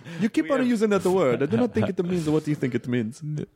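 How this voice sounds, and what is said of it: Inigo Montoya accent from Princess Bride. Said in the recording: “where did we go for that accent? ... Princess Bride ... Mandy Patinkin's character says, you keep on using that word”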